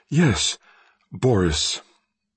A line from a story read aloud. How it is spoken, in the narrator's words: I could whisper